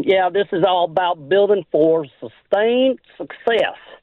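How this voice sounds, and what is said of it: Imitates another person's voice. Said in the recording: “my best Jimmy impersonation.”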